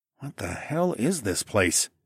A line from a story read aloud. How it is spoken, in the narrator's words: I muttered